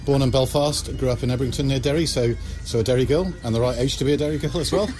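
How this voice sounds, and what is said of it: English accent. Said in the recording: “you're listening to me with an English accent”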